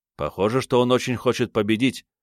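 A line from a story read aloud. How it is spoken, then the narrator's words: Plain. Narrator (Russian): ответил дракону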